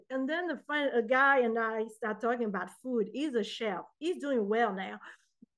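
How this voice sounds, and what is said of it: Speaks English with a foreign accent. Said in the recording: “I used to be so uncomfortable and ashamed with my accent ... I know I got an accent”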